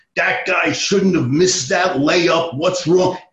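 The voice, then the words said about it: Tough New York accent. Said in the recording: “he's got this real tough, you know, New York accent ... Al McGuire's voice”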